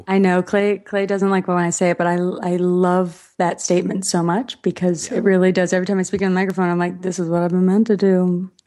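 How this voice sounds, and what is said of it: Smooth public-radio style voice. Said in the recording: “You have a very NPR voice.”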